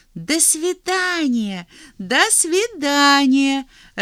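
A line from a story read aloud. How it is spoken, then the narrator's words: Cheerful. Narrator (Russian): радостно кивнул зайчик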